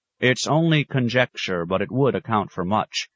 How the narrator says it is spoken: said stiffly, unwilling to retreat

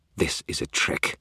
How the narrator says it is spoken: Leah hissed

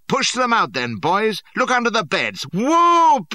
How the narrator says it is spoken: he roared

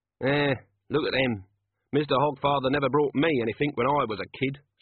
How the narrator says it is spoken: said Corporal Nobbs, eyeing the children gloomily

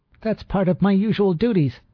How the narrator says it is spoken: she cried shrilly

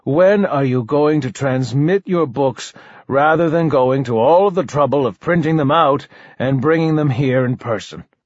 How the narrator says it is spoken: sighed

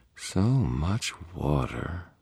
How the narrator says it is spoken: purred a female voice

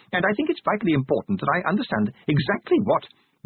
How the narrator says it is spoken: Passimore calmly

